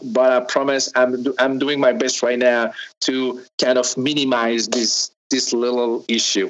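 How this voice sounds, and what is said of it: Strong French accent. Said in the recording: “where is that wonderful accent from?... I know I have a strong French accent”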